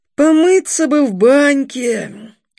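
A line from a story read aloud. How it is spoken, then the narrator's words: Sigh. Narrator (Russian): вздохнул Старлей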